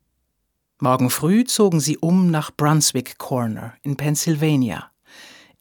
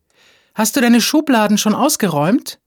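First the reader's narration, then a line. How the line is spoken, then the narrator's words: Calling out. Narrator (German): rief sie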